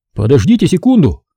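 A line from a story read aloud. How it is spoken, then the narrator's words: Shout. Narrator (Russian): крикнул Макфиллипс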